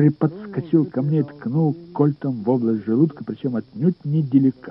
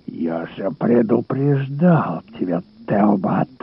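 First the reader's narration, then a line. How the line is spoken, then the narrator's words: Hiss. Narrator (Russian): прошипел он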